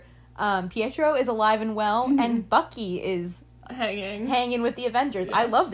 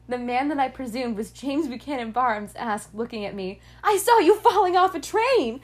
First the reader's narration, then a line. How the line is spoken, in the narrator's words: I yelled